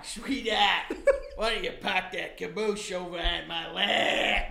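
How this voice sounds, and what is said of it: Put-on Boston accent. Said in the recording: “the Boston accent”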